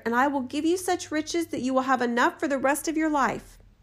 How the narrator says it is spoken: cried the spirit

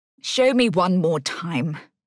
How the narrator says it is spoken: sighed

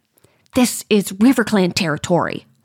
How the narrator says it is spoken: Hollypaw hisses

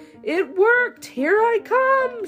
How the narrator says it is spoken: shouted Little Bunny

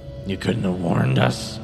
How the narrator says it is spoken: Eris groaned, his head swimming

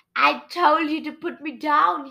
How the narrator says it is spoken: he shrieked

